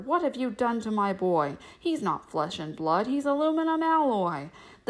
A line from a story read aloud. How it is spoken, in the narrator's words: Smith yelled at the doctor